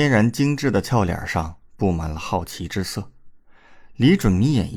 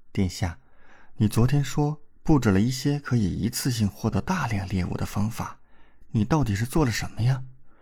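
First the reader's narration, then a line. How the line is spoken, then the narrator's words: Whispered question. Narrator (Chinese): 王嫣然 悄声问道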